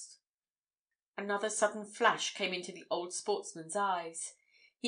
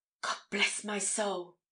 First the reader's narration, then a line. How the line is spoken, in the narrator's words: he exclaimed